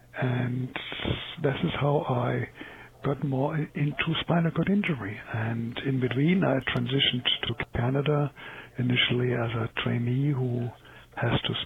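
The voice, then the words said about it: Non-native English speaker's accent. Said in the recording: “You can tell by my accent, I'm not English, I am ESL.”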